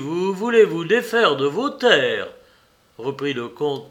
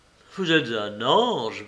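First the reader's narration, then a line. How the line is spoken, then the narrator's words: Murmured. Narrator (French): murmura-t-il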